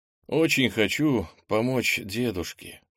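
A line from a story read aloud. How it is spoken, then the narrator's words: Ten-year-old's sigh. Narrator (Russian): вздохнул, вспомнив, что ему 10 лет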